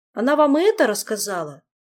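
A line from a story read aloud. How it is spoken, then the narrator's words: Downcast mumble. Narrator (Russian): пробормотал Мафей, не поднимая глаз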